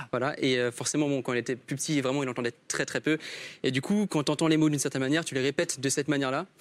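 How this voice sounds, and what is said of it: Accent like a hearing-impaired speaker. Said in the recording (French): “On dirait que t'as un accent... Mais t'as un accent... C'est pas un accent alsacien... j'ai un accent de malentendant”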